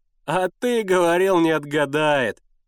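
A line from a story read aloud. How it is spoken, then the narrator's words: Laughing hard. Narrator (Russian): покатывался с хохоту Сенька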